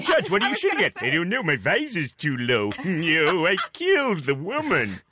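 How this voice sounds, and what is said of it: Imitates another person's voice. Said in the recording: “a really great impression of Robin Williams as RoboCop, by the way. One of the best I've ever heard.”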